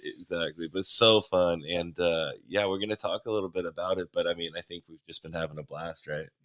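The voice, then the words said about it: Hoarse, nearly lost voice. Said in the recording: “I just realized how hard it is on my voice. ... I don't even yell. Just my voice is gone. ... coming here with no voice.”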